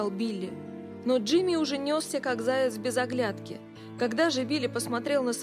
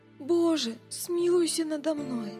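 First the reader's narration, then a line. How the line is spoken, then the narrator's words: Groaning plea. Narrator (Russian): застонал он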